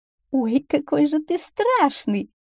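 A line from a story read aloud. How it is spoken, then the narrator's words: Laughing. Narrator (Russian): засмеялась лисица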